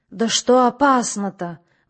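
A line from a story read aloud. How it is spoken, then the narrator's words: Tense exclamation. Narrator (Russian): воскликнул напряженно вслушивавшийся в бред владыка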